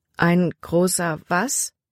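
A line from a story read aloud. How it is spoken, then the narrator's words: Plain. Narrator (German): fragte Libby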